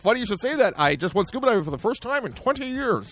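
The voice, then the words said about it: Put-on stereotypical white guy voice. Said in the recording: “I'm doing the white voice, the white guy voice”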